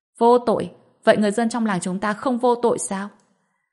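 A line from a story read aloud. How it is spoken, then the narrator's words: Shouting. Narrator (Vietnamese): Thiên Hoa Sơn lập tức hét lên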